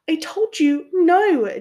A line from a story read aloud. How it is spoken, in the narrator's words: Ginny squealed